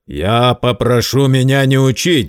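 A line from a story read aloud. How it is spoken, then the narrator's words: Angry, curt. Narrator (Russian): злобно отрезал Герд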